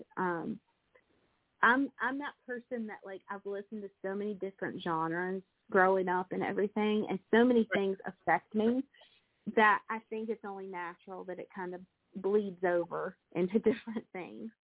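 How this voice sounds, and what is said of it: Country twang accent. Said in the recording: “I can't get past my twang and my accent”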